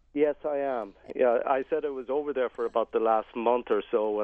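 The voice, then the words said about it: Slight Irish accent. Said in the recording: “you sound like you have just a little bit of an Irish accent yourself”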